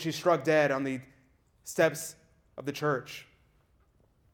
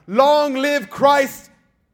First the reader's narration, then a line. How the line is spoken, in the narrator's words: Maria de la Luz shouts